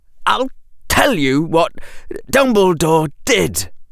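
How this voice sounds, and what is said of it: Uneven, harsh-breathing voice. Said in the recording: “Draco's breathing was harsh ... in an uneven voice”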